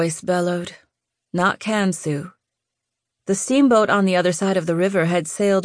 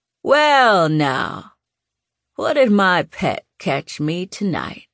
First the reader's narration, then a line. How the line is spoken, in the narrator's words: he drawled